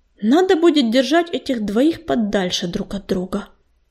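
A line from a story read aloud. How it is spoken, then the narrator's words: Muttering under breath. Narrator (Russian): Бормотал себе под нос Огнезвезд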